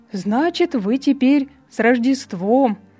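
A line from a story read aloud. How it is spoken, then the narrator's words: Cheerful old man. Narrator (Russian): весело ответил старичок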